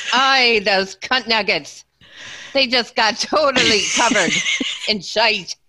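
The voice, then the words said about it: Put-on Scottish accent. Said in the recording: “say it with a Scottish accent”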